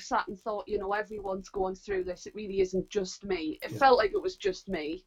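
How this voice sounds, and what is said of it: Northeast English accent. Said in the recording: “you're from the northeast, and they might just guess it from your accent.”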